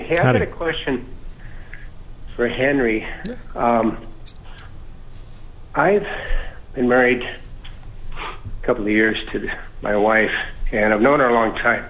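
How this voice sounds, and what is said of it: Out-of-breath caller. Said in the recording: “excuse me, I was just out of breath.”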